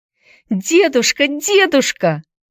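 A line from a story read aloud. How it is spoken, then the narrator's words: Frantic girl screaming. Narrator (Russian): вне себя кричала девочка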